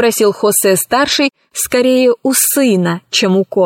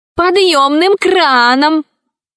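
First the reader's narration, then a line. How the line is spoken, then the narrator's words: Distant offended boy shouting. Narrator (Russian): закричал издали оскорбленный мальчик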